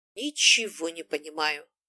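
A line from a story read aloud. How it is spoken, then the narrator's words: Displeased grumble. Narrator (Russian): проворчала недовольно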